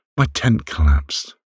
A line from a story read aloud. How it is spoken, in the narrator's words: she said shakily, her body shivering from the shock